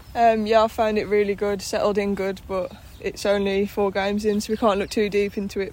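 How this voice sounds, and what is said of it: Birmingham accent. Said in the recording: “Started her career with Birmingham, as you'll notice from the accent.”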